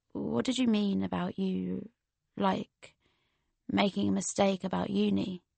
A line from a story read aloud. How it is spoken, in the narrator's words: he whispered